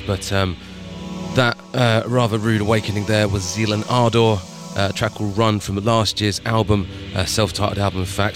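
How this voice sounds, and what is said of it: Slightly ill-sounding voice. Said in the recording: “As you might hear in my voice, I am still a bit ill”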